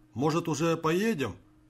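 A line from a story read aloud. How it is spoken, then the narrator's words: Displeased shout, feigned pain. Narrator (Russian): недовольно крикнул он на водителя, скорчившись от мнимой боли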